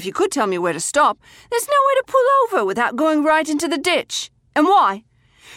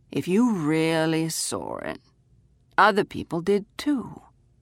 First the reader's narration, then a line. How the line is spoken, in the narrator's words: he said calmly